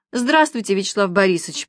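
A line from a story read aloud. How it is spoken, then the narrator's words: Deep chesty voice. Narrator (Russian): произнесла Маша глубоким грудным голосом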